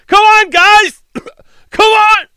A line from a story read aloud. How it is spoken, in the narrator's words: yelled